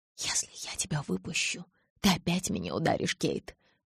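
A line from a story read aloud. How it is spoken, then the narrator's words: Whispered. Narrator (Russian): прошептал он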